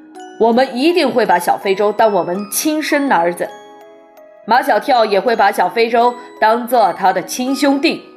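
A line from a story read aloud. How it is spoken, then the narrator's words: Earnest promise. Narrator (Chinese): 马天笑先生向马爷爷保证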